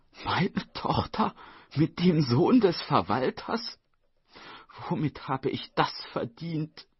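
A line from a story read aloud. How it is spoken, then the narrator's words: Sobbing. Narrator (German): schluchzte Frau Song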